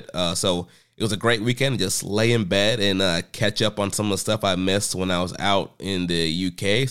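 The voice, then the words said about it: Slightly sick, congested voice. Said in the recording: “I was sick. You can probably hear it in my my voice still a little bit.”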